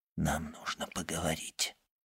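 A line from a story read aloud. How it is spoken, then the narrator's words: Whispered. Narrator (Russian): королевский прокурор уже шепнул госпоже Данглар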